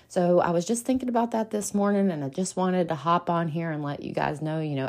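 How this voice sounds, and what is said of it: Country accent. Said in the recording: “my country accent”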